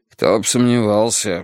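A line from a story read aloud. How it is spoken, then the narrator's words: Grumble drowned by engine. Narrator (Russian): буркнул Страйк, но его слова поглотил шум двигателя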